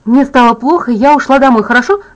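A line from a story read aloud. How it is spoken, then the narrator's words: Suddenly excited. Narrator (Russian): сказала я Майку внезапно возбужденным голосом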